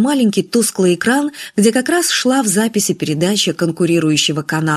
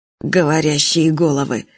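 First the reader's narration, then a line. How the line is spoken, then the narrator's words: Irritated. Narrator (Russian): раздраженно сказал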